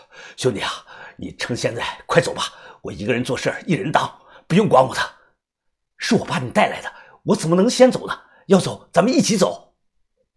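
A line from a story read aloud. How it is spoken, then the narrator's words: Breathless, urgent. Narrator (Chinese): 高斌喘着气，急声的说道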